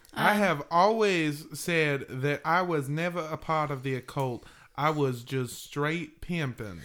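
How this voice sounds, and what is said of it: Put-on accent imitating another person. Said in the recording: “I'm not sure why my accent is this one, as I am from Massachusetts.”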